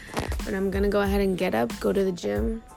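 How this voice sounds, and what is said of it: Sounds a little tired. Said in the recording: “why I sound a little tired, because I just woke up from a nap.”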